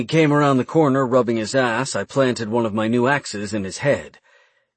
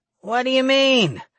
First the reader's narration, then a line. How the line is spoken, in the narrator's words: Urgog groaned miserably